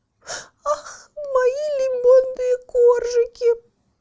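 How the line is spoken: Sobbing cat. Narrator (Russian): разрыдалась кошка

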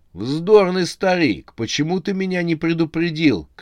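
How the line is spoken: Shout. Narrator (Russian): крикнул Рамзес

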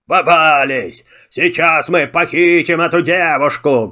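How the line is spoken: Menacing yelling. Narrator (Russian): грозно вопили они

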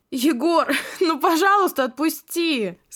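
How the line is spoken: Laughing. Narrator (Russian): Сквозь смех проговорила я

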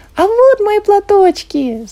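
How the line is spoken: Shouted. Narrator (Russian): закричала Люси

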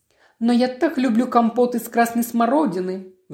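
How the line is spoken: Pleading. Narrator (Russian): взмолилась миссис Хаттон

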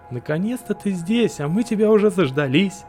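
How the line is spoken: Cheerful clowning tone. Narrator (Russian): весело кривлялся хохотуша

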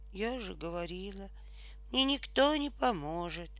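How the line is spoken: Whisper. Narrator (Russian): прошептала матрешка

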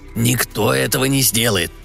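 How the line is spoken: Grumbling conductor. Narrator (Russian): проворчал кондуктор

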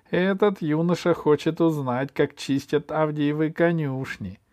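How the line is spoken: Snide. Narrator (Russian): ехидно сказала Машенька Белая

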